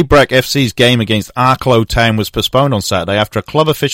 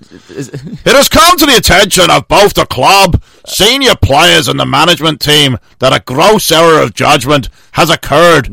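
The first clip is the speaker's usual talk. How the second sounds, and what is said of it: Put-on Northern Irish accent. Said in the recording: “Irish ... Not even close. ... That's Northern Ireland. ... It's not even close to Northern Ireland. ... that's very Northern Irish. That's Ulster.”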